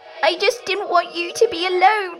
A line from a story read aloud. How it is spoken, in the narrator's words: she said, sobbing